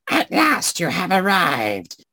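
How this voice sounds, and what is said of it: Crackly old crone voice. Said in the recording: “her voice crackled like dry weeds ... You're going to do that voice the entire conversation, then?”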